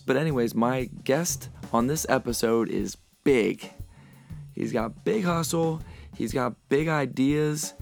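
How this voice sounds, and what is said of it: Slightly raspy, hoarse voice. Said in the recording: “my voice is a little bit raspier than it usually is. I do have a cold.”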